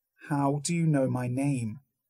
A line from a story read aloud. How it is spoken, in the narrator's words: I asked, speaking the words slowly, calmly, his voice was nearly a whisper